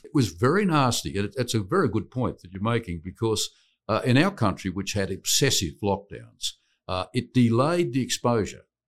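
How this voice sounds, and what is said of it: Australian accent. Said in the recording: “I'm actually from Australia. ... he is from Australia. ... I don't have an accent, of course.”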